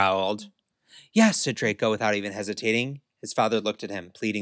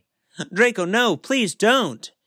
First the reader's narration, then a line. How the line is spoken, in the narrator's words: he begged